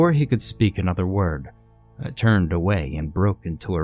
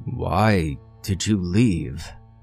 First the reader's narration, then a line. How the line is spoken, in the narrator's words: he asked in a wounded voice, as if I'd committed an unforgivable act of cruelty and caused him tremendous pain